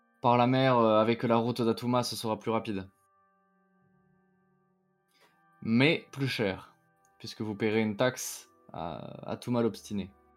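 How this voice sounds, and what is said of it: Mixed southern French traveler's accent. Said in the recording (French): “une espèce d'accent, un peu un mélange, un peu un accent, l'accent de quelqu'un qui aurait voyagé. Un mélange entre un truc un peu du sud, mais des fois qui va avoir un petit peu des relents d'autres zones”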